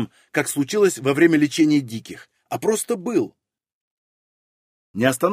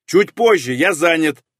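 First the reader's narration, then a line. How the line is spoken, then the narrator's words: Irritated shout. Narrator (Russian): раздраженно выкрикнул я от того, что потерял контроль и сорвал эксперимент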